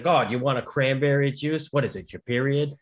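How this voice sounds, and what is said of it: Put-on Boston accent. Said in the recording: “great your Boston accent.”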